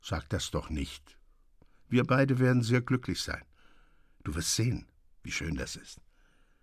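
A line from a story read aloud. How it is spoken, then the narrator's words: Gentle, calm. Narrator (German): sagte er sanft mit ruhiger Miene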